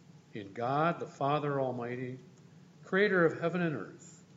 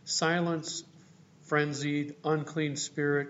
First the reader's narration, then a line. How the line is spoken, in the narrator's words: cried God's healing Holy One